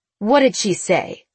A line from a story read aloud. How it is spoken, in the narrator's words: Nora asked sharply